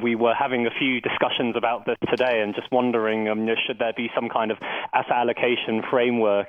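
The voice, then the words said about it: Clear English accent. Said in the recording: “his English accent is clearer than yours.”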